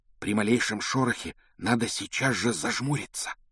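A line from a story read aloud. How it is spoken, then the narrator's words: Low-voiced warning. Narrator (Russian): предупредил Гарри вполголоса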